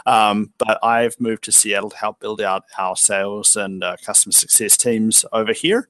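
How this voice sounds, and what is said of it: New Zealand accent. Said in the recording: “headquartered in Wellington, New Zealand, which is why I have a bit of a funny accent”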